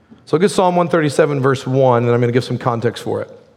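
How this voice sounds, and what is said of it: Slightly raspy, strained voice. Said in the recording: “I've got a little raspy voice. I've preached for like 15 straight weeks... My voice is hating me.”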